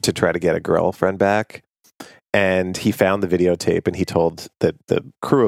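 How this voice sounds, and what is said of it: Usual voice. Nothing is said of it.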